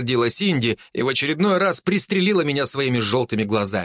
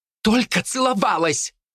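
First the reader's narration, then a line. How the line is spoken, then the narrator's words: Flustered shout. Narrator (Russian): крикнула она и с красным лицом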